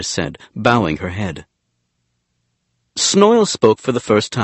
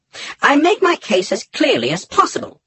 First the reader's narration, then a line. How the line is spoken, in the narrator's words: he said in his soft, high voice